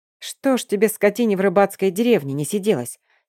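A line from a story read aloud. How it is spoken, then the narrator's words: Angry muttering. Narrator (Russian): сердито бормочет нюхач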